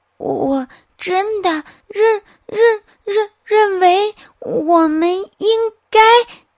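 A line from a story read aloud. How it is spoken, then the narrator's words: Stuttering. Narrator (Chinese): 他又开始结结巴巴的说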